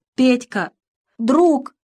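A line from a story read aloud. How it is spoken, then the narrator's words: Sobbing in grief. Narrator (Russian): рыдал Лёшка над трупом товарища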